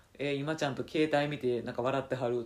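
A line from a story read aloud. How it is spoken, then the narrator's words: Plain. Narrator (Japanese): とか言って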